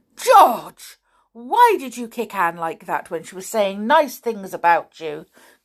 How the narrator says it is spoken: cried her mother

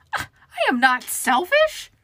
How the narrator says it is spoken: Cynthia shrieked

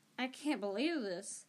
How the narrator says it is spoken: Harry muttered

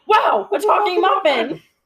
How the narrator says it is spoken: The other one shouted

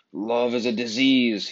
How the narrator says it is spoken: he thundered

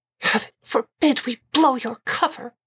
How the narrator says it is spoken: Aziraphale said through clenched teeth

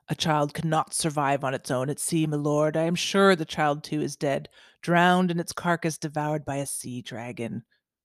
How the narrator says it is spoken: grunted the one-eyed man

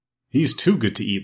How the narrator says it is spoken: laughed Chick the Cherub

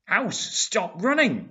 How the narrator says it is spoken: Valentina shouts

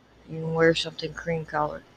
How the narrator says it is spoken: he murmured reluctantly

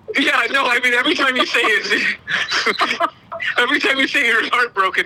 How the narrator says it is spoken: Aaron laughs

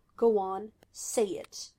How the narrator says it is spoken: dared in a low growl

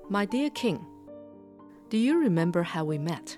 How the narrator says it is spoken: the queen asked

